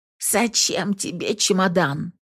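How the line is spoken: Hoarse. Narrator (Russian): хрипит она

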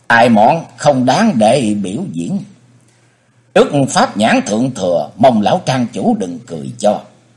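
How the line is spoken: Smiling, polite. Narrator (Vietnamese): Chân Khách Chu mỉm cười nói

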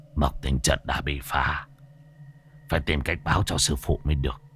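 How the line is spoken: Relieved old man muttering. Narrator (Vietnamese): Lão thầy cúng bây giờ mới yên tâm, lẩm bẩm

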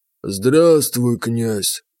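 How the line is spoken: Toothless mumble, creature. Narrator (Russian): прошамкал адский цветочек

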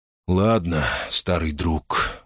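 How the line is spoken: Sighing. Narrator (Russian): молвил он, тяжело вздохнув

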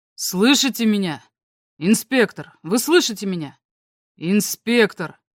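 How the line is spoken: Too loud. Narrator (Russian): Он говорил слишком громко

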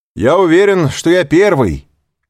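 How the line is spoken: Shouting. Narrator (Russian): крикнул ему Морель

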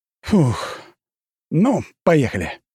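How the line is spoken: Exhaled. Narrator (Russian): выдохнул я

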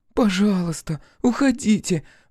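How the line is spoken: Pleading woman. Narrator (Russian): взмолилась блондинка

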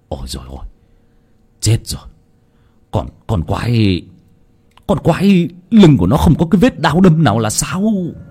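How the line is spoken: Terrified stammering. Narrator (Vietnamese): Lão Nhiên đột nhiên hãi hùng, toàn thân nổi cả gai ốc, lắp bắp

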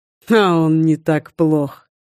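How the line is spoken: Scoff. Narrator (Russian): хмыкнул Вархар

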